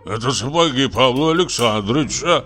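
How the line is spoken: Grumble. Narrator (Russian): проворчал он

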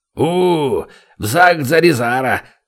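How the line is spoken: Roar. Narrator (Russian): взревел он

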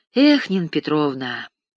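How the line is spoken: Sighing. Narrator (Russian): вздохнул Христонин

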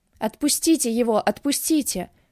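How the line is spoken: Shouting through tears. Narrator (Russian): кричала сквозь слезы

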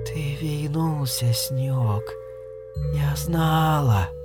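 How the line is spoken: Quiet. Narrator (Russian): тихо сказала она

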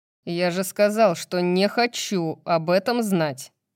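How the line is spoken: Grumbling. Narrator (Russian): проворчал Баксиан

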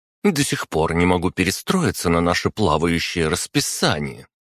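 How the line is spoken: Indignant young woman. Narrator (Russian): возмущенно проговорила наша одногруппница Лиза Мазина, неодаренная девушка

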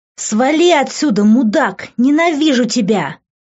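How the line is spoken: Screaming. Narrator (Russian): вопила она

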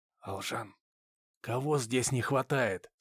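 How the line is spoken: Almost whispered question. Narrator (Russian): спросил я практически шепотом

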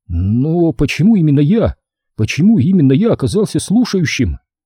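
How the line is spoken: Embarrassed, bewildered question. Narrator (Russian): смущенно растерянно спросил

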